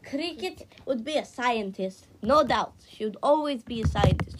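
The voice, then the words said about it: Put-on accent. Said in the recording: “Why am I doing this accent?”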